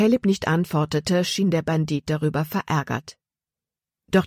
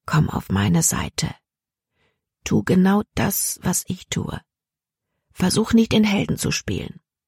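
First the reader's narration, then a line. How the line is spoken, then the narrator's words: Said softly. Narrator (German): Caleb sagte leise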